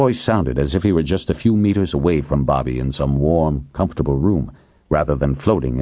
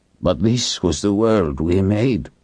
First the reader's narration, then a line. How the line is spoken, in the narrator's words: David said bitterly